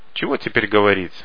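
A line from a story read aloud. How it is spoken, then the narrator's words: Sighing. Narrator (Russian): вздохнул Харе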